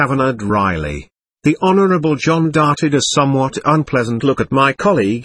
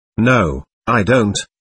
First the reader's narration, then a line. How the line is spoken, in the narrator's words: said John